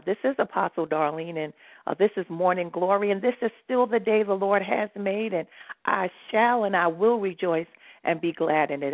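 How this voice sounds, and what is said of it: Voice sounds messed up. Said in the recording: “I know my voice sounds messed up. ... It's because it's been a long night.”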